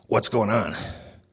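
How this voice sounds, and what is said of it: Clint Eastwood impression, gravelly tough voice. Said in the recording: “In my Clint Eastwood voice.”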